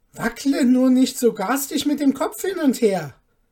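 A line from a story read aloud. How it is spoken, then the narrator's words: Frightened child calling. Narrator (German): rief der Kleine ängstlich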